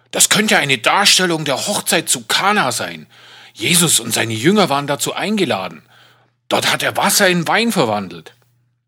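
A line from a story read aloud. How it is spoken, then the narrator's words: Excited priest explaining. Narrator (German): erklärte mir der Pfarrer aufgeregt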